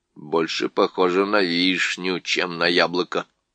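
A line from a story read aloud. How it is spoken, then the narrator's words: Muttered. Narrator (Russian): пробормотал он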